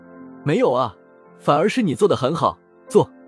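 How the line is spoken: Startled, then low laugh. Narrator (Chinese): 厉谨言先是一愣，而后沈笑

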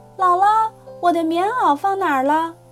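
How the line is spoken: Loud shout. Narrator (Chinese): 我大声叫说

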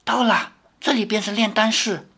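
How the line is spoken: Low voice. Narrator (Chinese): 低声地说

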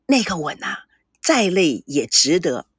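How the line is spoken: Lowered voice. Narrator (Chinese): 赵熙声音放低了对孙娜说

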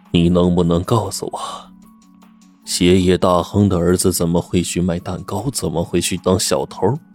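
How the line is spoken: Cold question. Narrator (Chinese): 罗文健冷冷的问

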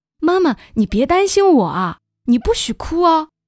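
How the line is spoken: Breathless shout. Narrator (Chinese): 岳阳气喘吁吁地喊

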